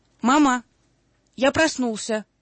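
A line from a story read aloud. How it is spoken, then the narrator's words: Child shouting. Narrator (Russian): крикнул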